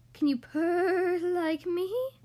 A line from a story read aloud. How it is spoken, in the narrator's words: purred the cat